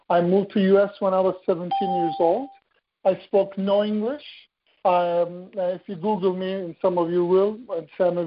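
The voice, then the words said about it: Turkish accent. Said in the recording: “accent that some of you may be detecting is not the California accent. I'm Turkish.”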